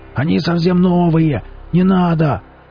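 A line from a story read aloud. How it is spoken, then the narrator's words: Desperate wailing. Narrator (Russian): Отчаянно барахтаясь в снегу, завопил Велес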